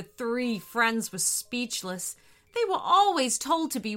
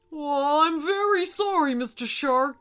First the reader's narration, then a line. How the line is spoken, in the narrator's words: spluttered the whale